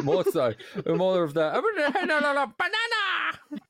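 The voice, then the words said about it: High squeaky minion cartoon voice. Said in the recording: “you sound like a minion.”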